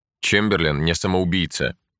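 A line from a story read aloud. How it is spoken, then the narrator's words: Calm. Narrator (Russian): спокойно продолжал Рудольф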